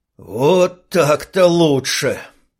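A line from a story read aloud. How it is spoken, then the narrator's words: Strained wheeze. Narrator (Russian): С трудом просипел офицер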